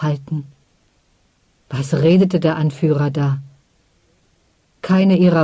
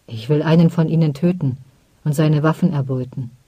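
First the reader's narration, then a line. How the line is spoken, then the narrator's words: Calm explanation. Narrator (German): erklärte Onnen ruhig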